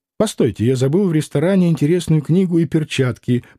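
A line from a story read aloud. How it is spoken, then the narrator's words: Muttering. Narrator (Russian): пробормотал Тагильский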